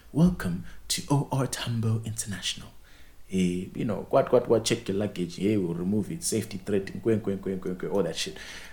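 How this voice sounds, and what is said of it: Imitated African accent announcement. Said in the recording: “the African accent ... the twang is lit now”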